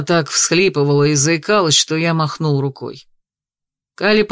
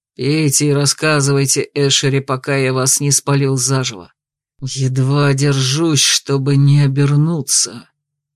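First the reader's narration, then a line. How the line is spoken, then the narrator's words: Hissing. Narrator (Russian): прошипел я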